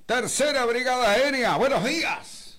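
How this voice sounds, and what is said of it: Commanding superior officer's voice. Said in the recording (Spanish): “poner voz de superior”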